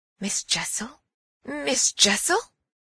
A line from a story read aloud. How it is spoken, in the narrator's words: with a gasp I echoed it